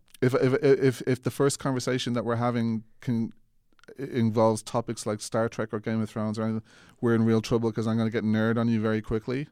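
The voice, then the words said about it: Irish accent, sounds Mid-Atlantic. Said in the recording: “people don't seem to quite recognize my accent as Irish over there. I get called Mid-Atlantic quite a bit.”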